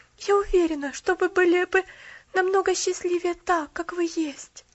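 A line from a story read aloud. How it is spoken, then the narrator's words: Sad laugh. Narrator (Russian): грустно засмеялся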